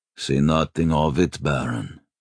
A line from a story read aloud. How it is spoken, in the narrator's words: he grumbled